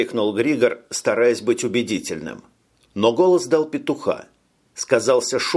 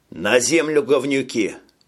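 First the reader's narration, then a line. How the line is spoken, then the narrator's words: Barked, unseen hero. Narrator (Russian): Рявкнул невидимый герой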